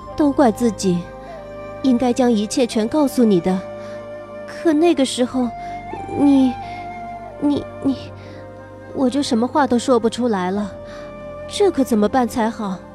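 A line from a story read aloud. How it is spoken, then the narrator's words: Mumbling. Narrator (Chinese): 我嘟囔道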